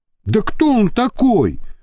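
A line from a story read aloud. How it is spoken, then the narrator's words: Indignant. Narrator (Russian): возмущенно начал Иван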